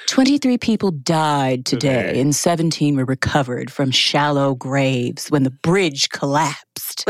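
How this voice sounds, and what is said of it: Imitates a public radio newsreader voice. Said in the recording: “With her NPR voice ... reading horrible events from around the world in your NPR voice”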